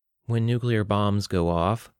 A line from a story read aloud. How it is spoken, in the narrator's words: Teresa said in a dull monotone